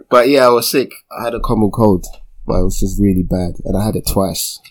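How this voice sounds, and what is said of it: Deep, slightly croaky voice. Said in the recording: “My voice is still a little, might hear it. It's a little bit different than usual. ... Trying to sound like Isaac Hayes. ... A bit of a croak.”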